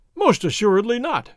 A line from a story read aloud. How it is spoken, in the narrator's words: His Excellency cried